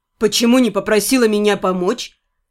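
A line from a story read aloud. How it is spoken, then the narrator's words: Involuntary scoff. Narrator (Russian): невольно хмыкнул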